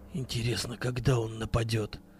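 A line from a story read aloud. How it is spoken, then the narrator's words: Whispered question. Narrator (Russian): шепотом спросил Вадим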